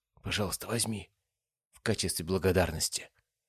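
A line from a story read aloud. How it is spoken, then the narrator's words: Whispered. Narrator (Russian): шепотом сказала она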